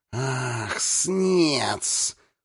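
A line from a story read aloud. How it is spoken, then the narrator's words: Hiss. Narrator (Russian): прошипел Хис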